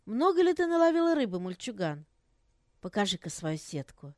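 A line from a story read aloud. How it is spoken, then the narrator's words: Kind smiling lady. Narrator (Russian): дама, ласково улыбнувшись, спросила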